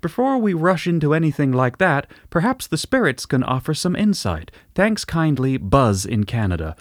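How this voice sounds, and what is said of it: Soothing attempted Canadian accent. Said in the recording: “Very soothing accent ... I'm not sure it was particularly Canadian, but it was very nice.”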